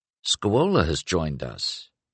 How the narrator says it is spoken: said quietly

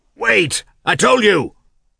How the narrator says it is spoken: he shouted to her

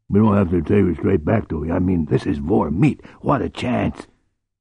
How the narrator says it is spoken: spat disgust

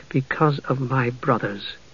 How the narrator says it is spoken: Palin said in a low voice

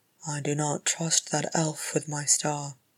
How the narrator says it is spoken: Thorin muttered

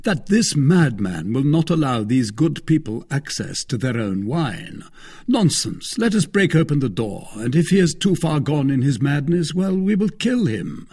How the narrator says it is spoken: cried one of them, in very good French, though with a foreign accent

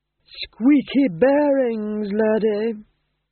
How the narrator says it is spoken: groaned Vitola

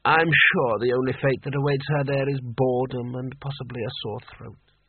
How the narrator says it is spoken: gave an irritable sigh

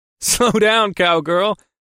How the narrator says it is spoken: I chuckled

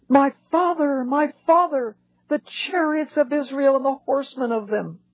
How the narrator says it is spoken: And Elisha cried out

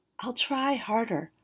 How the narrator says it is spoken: the girl whispered

